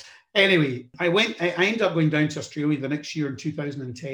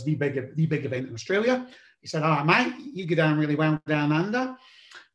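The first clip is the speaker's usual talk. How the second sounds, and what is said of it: Poor imitation Australian accent. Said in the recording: “in my terrible Australian accent, which I should be able to do a little bit better given I've been there 22 times”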